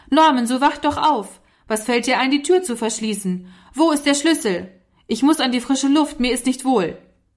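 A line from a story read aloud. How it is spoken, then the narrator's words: Angry shout. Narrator (German): stampfte er heftig mit dem Fuß und rief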